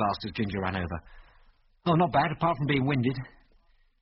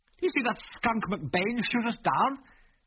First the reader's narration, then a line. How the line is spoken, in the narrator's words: He said bitterly